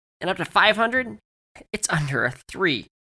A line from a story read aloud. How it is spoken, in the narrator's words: Joey exclaimed